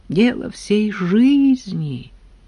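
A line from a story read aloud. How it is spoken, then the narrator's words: Sigh. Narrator (Russian): вздохнул Абрам Борисович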